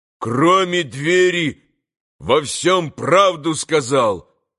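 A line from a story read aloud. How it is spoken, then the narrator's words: Loud shout. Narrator (Russian): громко крикнул Митя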